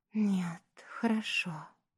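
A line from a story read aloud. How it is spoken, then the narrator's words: Whispered reply. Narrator (Russian): также шепотом ответила она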